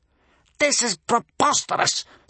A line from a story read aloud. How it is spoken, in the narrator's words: spluttered Gumboil